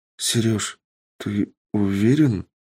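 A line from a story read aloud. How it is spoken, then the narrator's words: Shocked young woman mumbling. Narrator (Russian): пробормотала шокированная девушка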